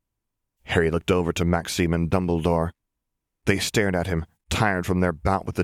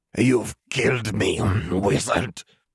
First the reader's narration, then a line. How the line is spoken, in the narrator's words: Dobrescu grunted, blackened blood dripping from his grinning mouth